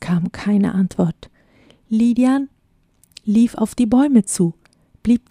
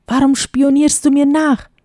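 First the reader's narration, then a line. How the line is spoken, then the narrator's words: Angry shout. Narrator (German): schrie er wütend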